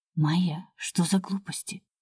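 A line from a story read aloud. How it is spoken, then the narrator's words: Girl whispering in ear. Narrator (Russian): шепнула мне на ухо одна из девчонок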